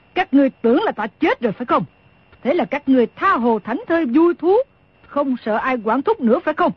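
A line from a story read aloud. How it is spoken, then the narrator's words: Scoffing, angry question. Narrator (Vietnamese): Đồng Mổ hừ một tiếng rồi tức giận hỏi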